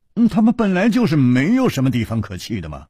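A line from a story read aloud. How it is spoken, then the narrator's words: Sighing. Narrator (Chinese): 楚留香叹了一口气说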